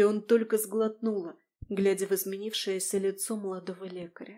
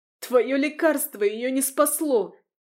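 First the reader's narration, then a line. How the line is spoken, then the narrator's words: Shouting out. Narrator (Russian): выкрикнула баронесса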